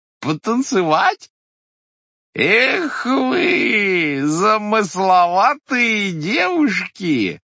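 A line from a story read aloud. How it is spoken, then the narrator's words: Drawn-out, laughing. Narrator (Russian): протяжно произнес коленик, смеясь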